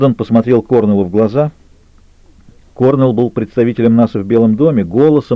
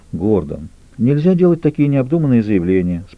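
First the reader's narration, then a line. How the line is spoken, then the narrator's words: Calm. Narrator (Russian): спокойно произнес он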